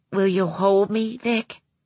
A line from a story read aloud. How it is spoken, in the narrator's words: Maggie asked in a tremulous voice